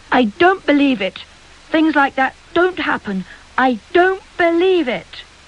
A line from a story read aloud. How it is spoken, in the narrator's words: each time Emily cried